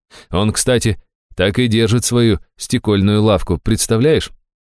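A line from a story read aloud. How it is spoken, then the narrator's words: Soft relieved laugh. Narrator (Russian): Аштира тихо с облегчением рассмеялась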